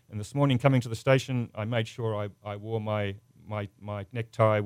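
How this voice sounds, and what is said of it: Australian English accent. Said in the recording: “I have a funny accent ... My accent's from Australia. I'm not British. I'm not a New Zealander. I'm an Australian”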